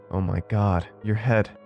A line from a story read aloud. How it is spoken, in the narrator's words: gasped, in horror